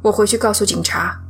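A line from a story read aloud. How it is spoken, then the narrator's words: Reluctant mumble. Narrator (Chinese): 鲍勃明显有点难以接受，他嘟囔了一句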